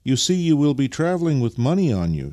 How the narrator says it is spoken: she continued in the same anxious tone

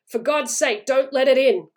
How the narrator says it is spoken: cried the old man, shaking with fear

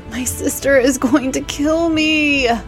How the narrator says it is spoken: she whined

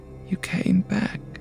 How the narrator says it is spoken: Her voice had a faraway quality when she said

